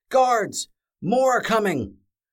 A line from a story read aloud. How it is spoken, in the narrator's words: A voice from the end of the hallway shouted out